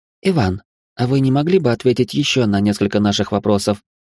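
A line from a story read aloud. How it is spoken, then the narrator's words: Gentle question. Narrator (Russian): мягко спросила Машка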